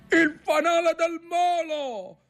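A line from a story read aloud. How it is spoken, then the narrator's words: Shouting. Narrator (Italian): gridò Ntoni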